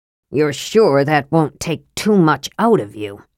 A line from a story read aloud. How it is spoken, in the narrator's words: Sturm said bitterly